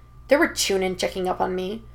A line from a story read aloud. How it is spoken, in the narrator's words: Naruto grumbles, apparently caught between embarrassment and indignation